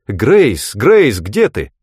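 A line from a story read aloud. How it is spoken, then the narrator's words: Loud call. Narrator (Russian): громко позвала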